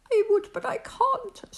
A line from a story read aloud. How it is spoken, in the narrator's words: sobbed poor Thidwick